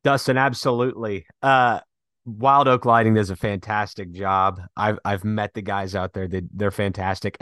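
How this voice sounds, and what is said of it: Strained, worn-out voice. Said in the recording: “my voice has hit a wall. I hope you can understand”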